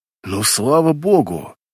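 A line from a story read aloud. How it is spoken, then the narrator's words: Relieved inner exhale. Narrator (Russian): выдохнул я про себя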